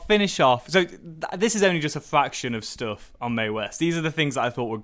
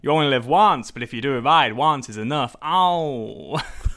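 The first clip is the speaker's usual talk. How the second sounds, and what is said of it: Imitates another person's voice. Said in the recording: “we got an impression from you ... you delivered on more than one occasion”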